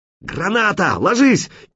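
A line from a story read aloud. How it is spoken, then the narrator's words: Hysterical shout. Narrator (Russian): истерично выкрикнул кто-то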